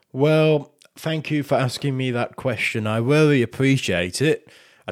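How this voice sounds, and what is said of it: Put-on Yorkshire pageant voice. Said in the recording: “I do this voice... Little Miss Yorkshire... you don't need to do an impression.”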